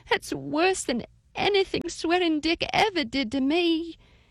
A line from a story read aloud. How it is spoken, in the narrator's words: cried